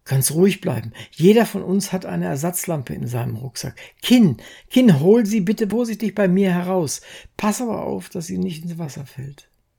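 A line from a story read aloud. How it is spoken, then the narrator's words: Called out. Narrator (German): Harry rief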